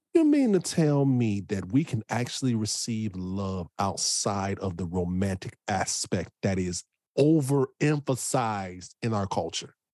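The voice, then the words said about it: Loud, emphatic speech. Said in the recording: “I'm going to say this loudly, I might even turn my microphone up on this one.”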